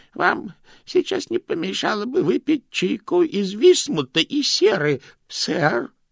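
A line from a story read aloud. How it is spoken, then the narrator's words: Trembling voice. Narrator (Russian): дрожащим голосом предложил Грош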